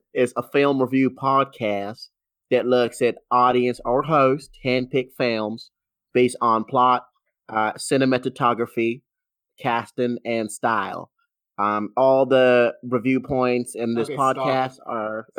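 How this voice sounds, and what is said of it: Deliberately bad Southern US accent. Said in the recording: “That sounds more a bad Southern accent ... It was supposed to be bad ... Less Western.”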